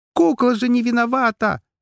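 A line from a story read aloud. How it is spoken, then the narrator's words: Shout. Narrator (Russian): закричала Афина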